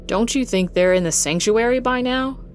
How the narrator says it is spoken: Reggie asked

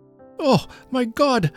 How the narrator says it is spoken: I cries out

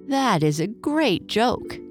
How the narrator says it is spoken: Jenny cried

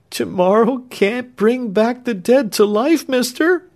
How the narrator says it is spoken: said Clemency, sobbing

